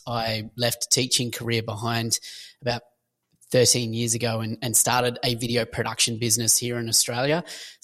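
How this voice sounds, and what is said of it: Australian accent. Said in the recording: “if you pick the accent, I'm Australian.”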